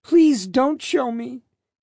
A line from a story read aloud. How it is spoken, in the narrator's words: Arias pleaded with seeming anguish